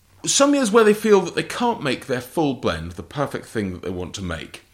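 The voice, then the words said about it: English accent. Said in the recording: “My accent's very English”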